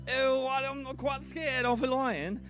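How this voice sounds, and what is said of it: Giggly attempt at British accent. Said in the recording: “I don't know why she just became Australian. ... that's my best British accent when on the spot. Sorry, I've got the giggles, so I can't do accents”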